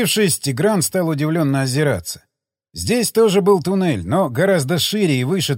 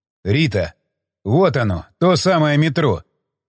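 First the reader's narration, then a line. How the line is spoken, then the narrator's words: Strained, delighted. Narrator (Russian): выдавил Тигран восторженно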